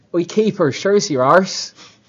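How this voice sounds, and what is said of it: Imitated Bristol accent. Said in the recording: “he's a Bristol lad. So he's got a great accent ... give you guys a very bad impression of it ... I'm going to try”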